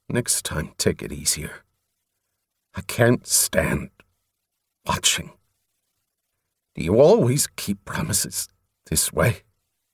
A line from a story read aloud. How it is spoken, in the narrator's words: Thickly, he replied